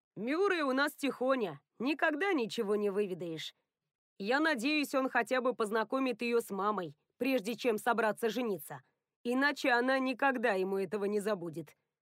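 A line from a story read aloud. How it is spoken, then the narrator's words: Plain. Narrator (Russian): сказал Соул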